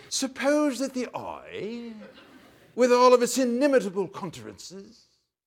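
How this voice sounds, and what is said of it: Put-on British accent. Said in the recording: “may I use a British accent here?”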